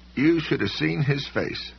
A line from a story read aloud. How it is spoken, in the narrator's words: Soames said dreamily